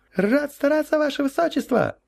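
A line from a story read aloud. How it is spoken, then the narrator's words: Cheerful yelp. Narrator (Russian): радостно вякнул новоиспеченный шнурок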